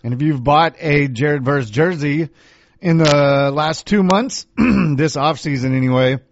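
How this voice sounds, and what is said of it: Hoarse, fading voice. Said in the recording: “I'm losing my voice now.”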